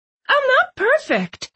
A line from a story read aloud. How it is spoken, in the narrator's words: I said, my voice rising an octave